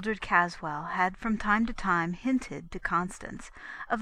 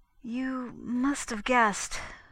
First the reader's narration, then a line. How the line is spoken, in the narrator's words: faltered Mrs